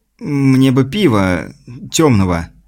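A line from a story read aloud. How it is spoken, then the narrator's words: Stammering. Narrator (Russian): заикаясь, сказал Пит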